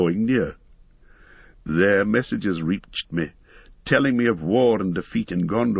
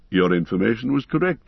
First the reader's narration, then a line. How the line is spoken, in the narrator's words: said